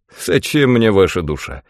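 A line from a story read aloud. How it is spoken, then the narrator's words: Wry snort. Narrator (Russian): хмыкнул он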